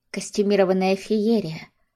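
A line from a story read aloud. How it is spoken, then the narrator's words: Sighing. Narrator (Russian): Арина вздохнула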